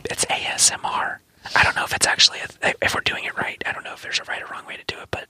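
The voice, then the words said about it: Whispering. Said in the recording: “Why are we whispering? ... I want to know why we're whispering.”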